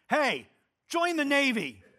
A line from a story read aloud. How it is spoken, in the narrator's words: he shouts down